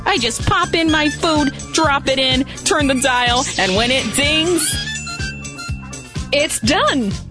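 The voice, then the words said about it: Brooklyn accent. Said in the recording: “one of the Star Wars characters has a Brooklyn accent”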